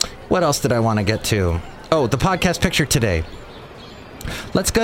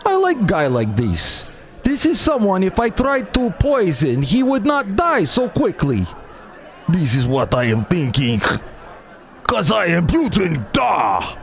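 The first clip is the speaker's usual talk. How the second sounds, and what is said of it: Put-on Russian accent. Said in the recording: “That was my Russian accent, everybody. ... I hope you enjoyed that Russian accent. ... That was a Russian accent.”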